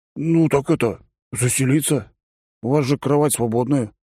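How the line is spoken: Surprised voice. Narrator (Russian): удивленным голосом произнес он

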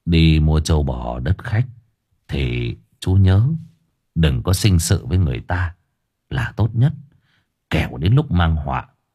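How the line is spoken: Soft voice. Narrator (Vietnamese): Cậu Hoan tôi nói khẽ

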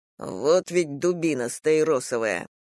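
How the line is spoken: Muttering. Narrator (Russian): бормоча

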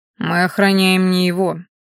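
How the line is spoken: Gloomy remark. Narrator (Russian): мрачно заметил оборотень

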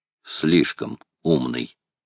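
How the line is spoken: Quiet reply. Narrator (Russian): тихо отозвался Макнапс

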